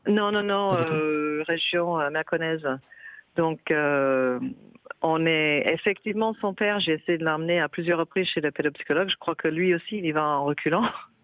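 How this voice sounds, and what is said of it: Charming regional French accent. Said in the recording (French): “petit accent absolument délicieux”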